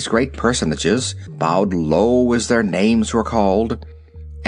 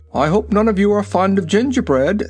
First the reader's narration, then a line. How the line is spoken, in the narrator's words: said the king rather anxiously